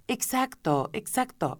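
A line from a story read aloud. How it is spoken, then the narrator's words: Sighing exclamation. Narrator (Spanish): exclamó el grifo, suspirando a su vez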